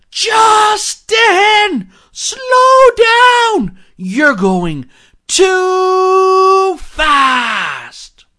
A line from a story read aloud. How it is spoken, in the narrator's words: police officer could do was take a deep, deep breath and yell out as loud as she could